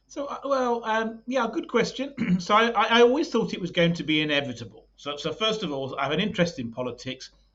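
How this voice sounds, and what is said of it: British accent. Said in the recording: “you got a British accent, you're obviously from the UK”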